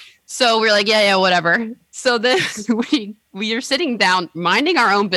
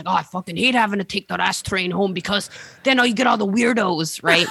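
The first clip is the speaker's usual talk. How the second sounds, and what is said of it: Imitates another person's voice. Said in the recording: “That's my Ashley accent.”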